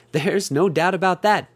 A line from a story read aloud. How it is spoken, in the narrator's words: Bonnie said with a little chuckle